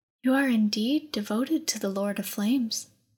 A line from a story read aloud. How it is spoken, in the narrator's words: Adanja breathed